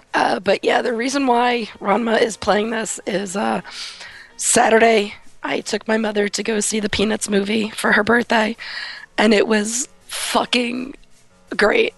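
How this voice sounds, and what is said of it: Hoarse, strained voice from cold. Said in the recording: “I seem to have a frog in my throat, so just call me Miss Piggy tonight ... as you can hear, I have a cold, and because I've been talking all day at work, it's basically caused me to lose my voice ... I'm auto-tuned tonight”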